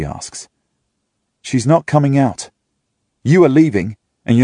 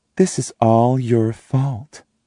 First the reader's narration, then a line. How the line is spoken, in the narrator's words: she says calmly